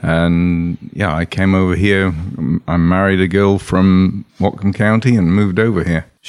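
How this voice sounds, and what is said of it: Slight British accent. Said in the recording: “we hear a little bit of an accent. It sounds like you came from across the pond.”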